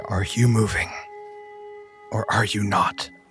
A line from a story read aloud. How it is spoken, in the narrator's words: They sigh and say